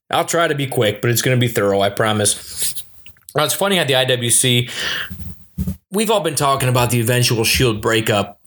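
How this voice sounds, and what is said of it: Michigan accent. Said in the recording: “my Michigan accent”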